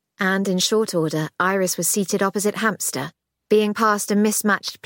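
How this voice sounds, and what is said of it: Usual voice. Nothing is said of it.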